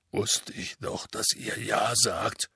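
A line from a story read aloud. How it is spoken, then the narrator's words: Muffled mumbling. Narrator (German): nuschelte Hagrid in sein Taschentuch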